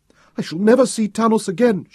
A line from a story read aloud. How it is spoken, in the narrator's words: she cried